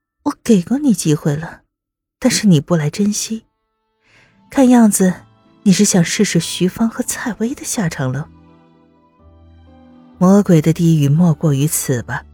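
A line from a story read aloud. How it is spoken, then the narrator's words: Soft whisper in ear. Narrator (Chinese): 在他耳边轻声道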